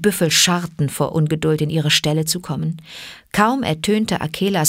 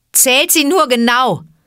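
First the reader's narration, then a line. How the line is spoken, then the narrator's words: Scornful call. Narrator (German): rief Mowgli höhnisch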